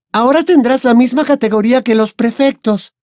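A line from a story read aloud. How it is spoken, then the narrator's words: Exclaiming. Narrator (Spanish): exclamó Hermione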